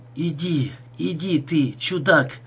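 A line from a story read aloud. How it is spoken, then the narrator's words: Weakening voice. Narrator (Russian): произнес Маркомбр слабеющим голосом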